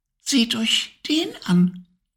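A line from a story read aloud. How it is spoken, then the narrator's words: Tiny faint whisper. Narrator (German): wisperte ein feines Stimmchen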